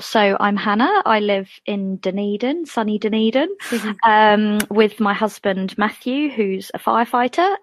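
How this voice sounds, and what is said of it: English accent. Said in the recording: “as the accent suggests, I'm from England ... So the accent's still going strong.”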